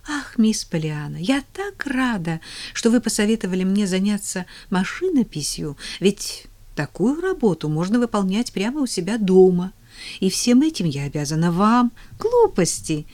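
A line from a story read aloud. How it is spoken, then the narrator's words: Cheerful objection. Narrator (Russian): весело возразила Полиана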